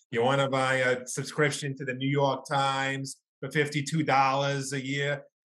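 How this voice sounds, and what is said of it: Deep New York accent. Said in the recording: “It was always like a really deep New York accent.”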